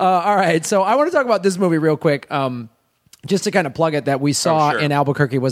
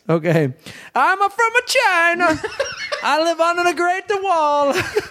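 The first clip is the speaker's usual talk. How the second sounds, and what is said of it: Exaggerated mock Chinese accent. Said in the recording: “you want to hear my Chinese impression? ... Very racist Asian accents.”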